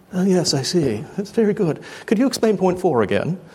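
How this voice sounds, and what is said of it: Put-on English accent. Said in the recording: “whenever I do Romans, it's an English accent”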